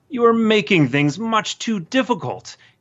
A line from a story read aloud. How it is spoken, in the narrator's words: he would roar